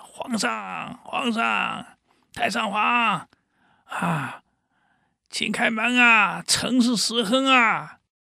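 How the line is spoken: Sudden shouting. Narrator (Chinese): 突然听到史子史亨在喊

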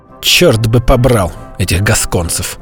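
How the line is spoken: Muttered. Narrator (Russian): пробормотал

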